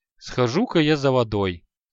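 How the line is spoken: Sigh. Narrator (Russian): вздохнул Аханит

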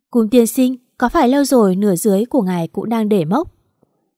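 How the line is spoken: Said, then loud laugh. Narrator (Vietnamese): Mạt Mạt nói rồi cười to

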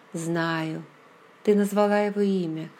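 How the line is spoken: Sad voice. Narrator (Russian): голос звучал печально

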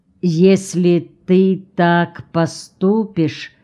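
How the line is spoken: Slow. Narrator (Russian): медленно произнес Орво

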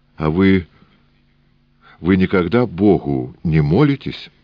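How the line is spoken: Plain. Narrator (Russian): спросил Сенька

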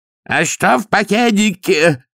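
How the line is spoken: Yelling through held nose. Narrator (Russian): заорал Дауни, одной рукой зажимая расквашенный нос

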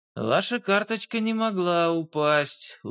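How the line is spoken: Tired explanation. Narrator (Russian): устало объяснил Дронго

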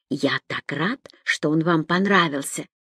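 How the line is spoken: Almost whispered. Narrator (Russian): почти шепотом произнес я

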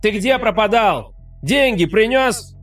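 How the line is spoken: Shout. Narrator (Russian): закричал кто-то

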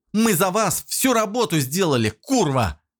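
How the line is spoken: Shouting. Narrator (Russian): кричала она

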